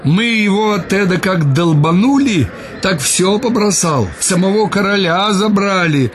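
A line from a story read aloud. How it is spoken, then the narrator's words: Excited shouting soldier. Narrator (Russian): разгоряченными, кричал солдат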